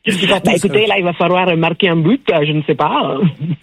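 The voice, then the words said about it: Put-on southwestern French accent, rolled r's. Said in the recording (French): “avec l'accent du sud-ouest ... je vous ai jamais demandé de rouler les airs ... C'est pas l'accent gascon.”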